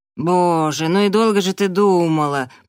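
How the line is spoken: Drawl. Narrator (Russian): протянула Келли

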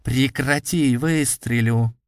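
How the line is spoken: Sharp dry warning. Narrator (Russian): резким сухим голосом предупредил меня держащий на мушке человек

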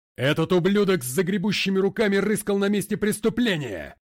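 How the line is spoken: Echoing roar. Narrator (Russian): Взревел МакГрей так, что его голос эхом прокатился по всему залу

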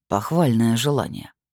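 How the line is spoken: Through gritted teeth. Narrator (Russian): сказал Эол чуть ли не сквозь зубы

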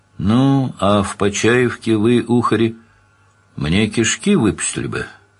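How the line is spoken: Plain. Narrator (Russian): спросил Данил

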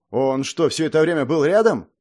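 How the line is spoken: Overly emotional exclamation. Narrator (Russian): излишне эмоционально воскликнул принц

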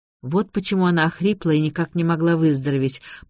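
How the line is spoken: Muttered. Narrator (Russian): пробормотал я

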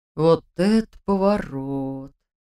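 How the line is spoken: Breathed out. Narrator (Russian): выдохнул Дементьев

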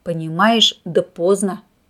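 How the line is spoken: Stern. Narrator (Russian): строго сказал полковник

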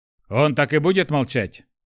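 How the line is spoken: Impatient deep bass. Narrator (Russian): Не выдержав тишины, пробасил лысый здоровяк

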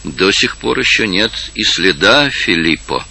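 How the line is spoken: Quiet. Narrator (Russian): тихо сказал другой

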